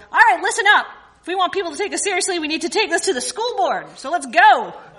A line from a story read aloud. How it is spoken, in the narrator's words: yelled